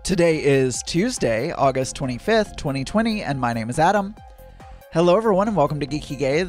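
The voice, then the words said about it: Slurred speech. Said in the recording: “I can't talk. I'm slurring my words.”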